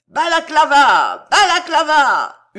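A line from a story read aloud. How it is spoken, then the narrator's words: Crowd yelling. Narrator (French): hurlait la foule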